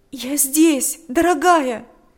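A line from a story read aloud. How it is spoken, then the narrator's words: Tearful exclamation. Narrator (Russian): воскликнула сквозь слезы Татьяна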